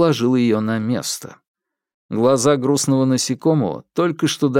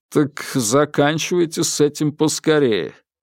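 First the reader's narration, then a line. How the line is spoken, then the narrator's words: Impassive voice. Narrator (Russian): сказал бесстрастным голосом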